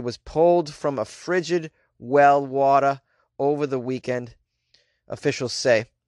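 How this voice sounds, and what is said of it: Put-on New England accent. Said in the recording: “Let's do this one with a New England accent”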